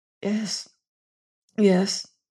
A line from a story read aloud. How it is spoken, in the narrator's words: faintly